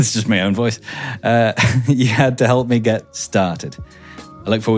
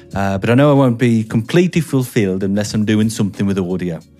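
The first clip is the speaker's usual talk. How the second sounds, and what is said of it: Inconsistent put-on accent. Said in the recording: “this is all over the shop. This accent.”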